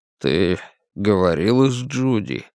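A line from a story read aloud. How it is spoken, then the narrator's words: Forced out reluctantly. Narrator (Russian): Мэтти выдавила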